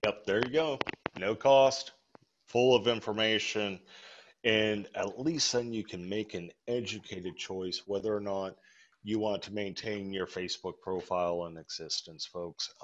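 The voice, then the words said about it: Strained, hoarse voice. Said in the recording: “I am losing my voice”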